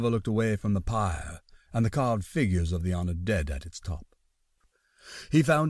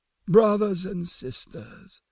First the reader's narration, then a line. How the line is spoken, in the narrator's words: he intoned